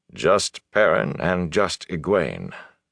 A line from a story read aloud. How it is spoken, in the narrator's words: Bornhold murmured